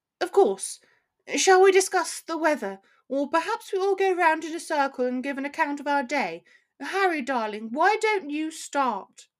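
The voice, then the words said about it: Sharper, posher put-on accent. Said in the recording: “Her accent became sharper and posher.”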